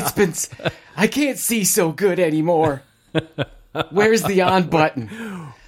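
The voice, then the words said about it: Old person's voice. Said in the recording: “I was so tempted to do my old voice.”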